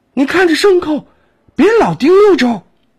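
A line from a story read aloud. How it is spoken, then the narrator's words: Urgent shout, old man. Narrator (Chinese): 张栓老汉急喊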